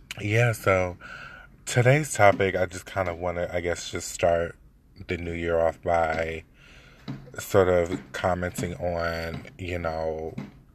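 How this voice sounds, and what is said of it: Sick, weak, fading voice. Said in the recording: “I am a little bit under the weather, so forgive my voice if I sort of fade out or if I happen to clear my throat a lot ... flu-like symptoms”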